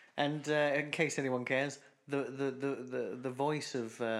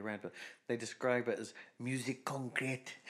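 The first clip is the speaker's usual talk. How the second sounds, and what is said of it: Exaggerated French accent. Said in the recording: “But French, obviously. That's why I said it with that horrible racist accent.”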